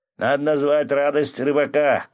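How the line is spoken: Shouted from another room. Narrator (Russian): крикнул из парилки Свят

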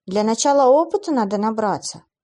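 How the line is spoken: Heavy sigh. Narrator (Russian): тяжело вздохнула Клэр

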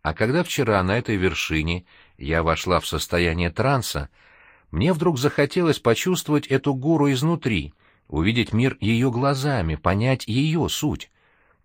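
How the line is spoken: Sweet voice. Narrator (Russian): Ольга тем же сладким голосом продолжила

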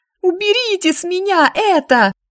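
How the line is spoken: Shrieking. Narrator (Russian): визжала

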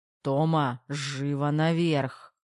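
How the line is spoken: Menacing growl. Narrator (Russian): продолжал рычать Терех

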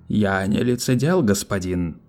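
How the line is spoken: Low trained voice, slightly confused. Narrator (Russian): произнес Нунеппи низким, хорошо поставленным голосом, в котором все же угадывалась некоторая растерянность

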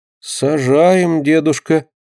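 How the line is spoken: Disappointed sigh. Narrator (Russian): разочарованно вздохнула Динка

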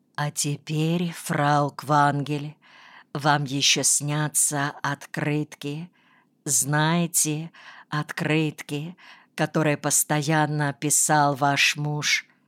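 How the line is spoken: Whisper. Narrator (Russian): Комиссар Эшерих говорит тоже шепотом

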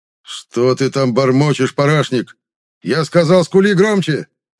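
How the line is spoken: Furious, escalating yell. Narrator (Russian): Заорал батя, распаляя самого себя

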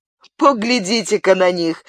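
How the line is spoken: Plain. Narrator (Russian): сказал Габриэль

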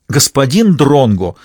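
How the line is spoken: Indignant. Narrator (Russian): возмущенно сказал Молоков

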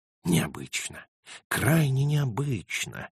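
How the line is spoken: Muttering. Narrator (Russian): пробормотал

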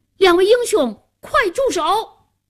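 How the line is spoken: Loud shout. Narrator (Chinese): 夏楠 高声喊道

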